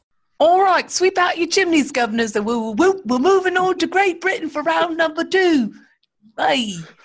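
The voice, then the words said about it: Put-on British Cockney-style accent. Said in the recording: “my best British impression ... it sounded like what's his face from Mary Poppins”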